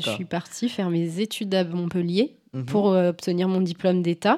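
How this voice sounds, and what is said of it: Slight southern French accent. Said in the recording (French): “tu as gardé une pointe d'accent du Midi qui est qui est plus du sud que de Valence. C'est assez joli, c'est agréable.”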